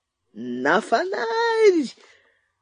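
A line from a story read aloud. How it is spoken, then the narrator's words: Wild enraged screaming. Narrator (Russian): Налившись кровью, дико вопил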